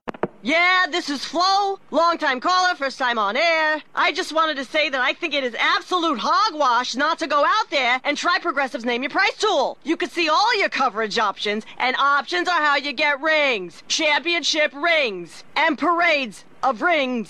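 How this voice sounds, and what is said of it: Imitates a sports talk radio caller. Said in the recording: “my impression of someone calling into Sports Talk Radio”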